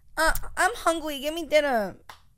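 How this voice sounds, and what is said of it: Baby voice. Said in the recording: “Talk to me like a baby again ... this baby voice. It's very weird.”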